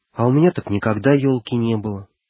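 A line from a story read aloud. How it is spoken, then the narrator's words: Suddenly sad. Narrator (Russian): вдруг грустно проговорил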